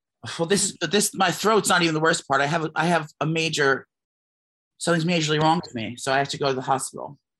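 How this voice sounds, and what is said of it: Hoarse voice. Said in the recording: “my voice is hoarse... you sound weird.”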